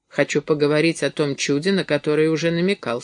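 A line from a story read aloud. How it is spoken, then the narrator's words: Plain. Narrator (Russian): сказал я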